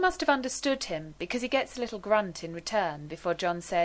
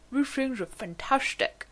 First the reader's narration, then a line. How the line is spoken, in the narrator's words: he mumbles